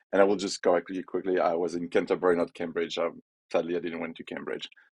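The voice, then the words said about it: French accent. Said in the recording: “as you can tell by my accent, I'm French”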